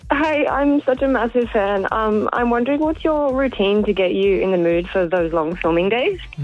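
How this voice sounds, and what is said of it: Shaky, nervous voice. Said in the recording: “my voice sounds so shaky. I'm really nervous.”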